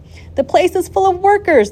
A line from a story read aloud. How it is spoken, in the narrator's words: the people shouted